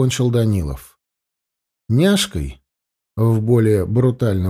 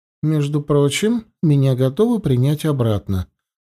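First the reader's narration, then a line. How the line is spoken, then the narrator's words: Meaningful tone. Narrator (Russian): многозначительным тоном произнесла Елена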